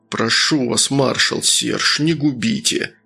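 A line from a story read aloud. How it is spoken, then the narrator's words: Loud whisper. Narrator (Russian): громко прошептал ресторатор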